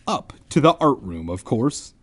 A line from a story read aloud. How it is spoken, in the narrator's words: Ben replied